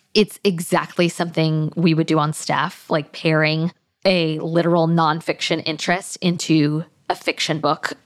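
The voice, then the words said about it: Excited, animated voice. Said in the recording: “I don't know if you can tell in my voice. I found this all very exciting.”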